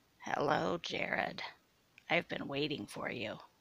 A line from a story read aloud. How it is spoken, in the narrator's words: said Sue, her voice now coarse like sandpaper